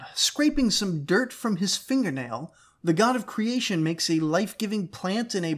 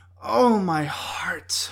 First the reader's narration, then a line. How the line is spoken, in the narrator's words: moaned the queen of the underworld